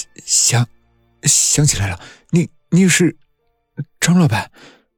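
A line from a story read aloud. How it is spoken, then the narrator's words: Frightened stammering. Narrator (Chinese): 李强只觉得双腿发软，结结巴巴地说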